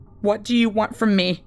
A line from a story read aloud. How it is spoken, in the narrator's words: I asked anxiously